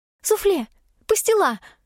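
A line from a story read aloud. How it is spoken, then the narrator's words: Exclamation. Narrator (Russian): воскликнула Шерри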